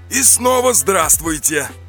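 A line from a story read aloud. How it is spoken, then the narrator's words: Cheerful. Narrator (Russian): весело произнес Борзов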